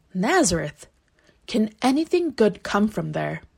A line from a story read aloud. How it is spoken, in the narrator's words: Nathanael scoffed back, saying